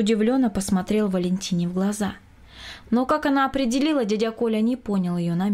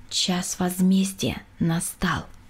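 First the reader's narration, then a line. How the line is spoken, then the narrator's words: Said quietly. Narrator (Russian): тихо сказала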